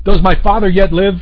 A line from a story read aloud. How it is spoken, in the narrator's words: he cried out